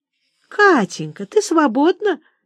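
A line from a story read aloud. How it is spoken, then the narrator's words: Honeyed sweet voice. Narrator (Russian): медовым голосом спрашивала мама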